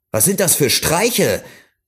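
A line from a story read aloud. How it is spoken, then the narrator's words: Called out. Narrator (German): rief er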